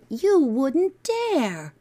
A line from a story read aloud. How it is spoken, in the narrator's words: Philip cried